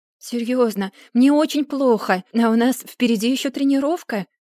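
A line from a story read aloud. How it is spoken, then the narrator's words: Pleading. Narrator (Russian): взмолилась Эмили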